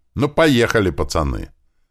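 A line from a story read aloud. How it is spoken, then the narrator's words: Loud. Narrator (Russian): громко сказал я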